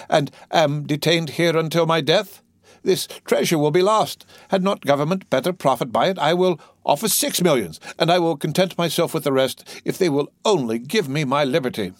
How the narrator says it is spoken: cried he

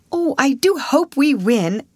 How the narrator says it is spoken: exclaimed Alice

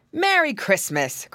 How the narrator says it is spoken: cried Uncle Wiggily

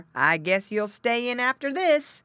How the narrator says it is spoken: cried the farmer

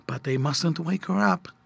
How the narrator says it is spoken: Mother whispered back

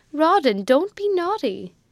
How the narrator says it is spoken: aunt exclaimed

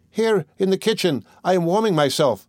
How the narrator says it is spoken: cried the second drop of blood

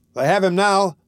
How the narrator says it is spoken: cried a man

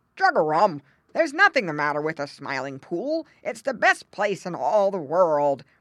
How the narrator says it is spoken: replied Grandfather Frog gruffly

